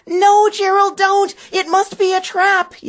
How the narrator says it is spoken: yelled one

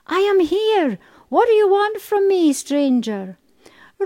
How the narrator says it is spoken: He called out

